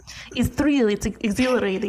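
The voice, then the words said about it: Put-on accent, sounds Russian. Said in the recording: “Could you say it in a French accent?... That's Russian.”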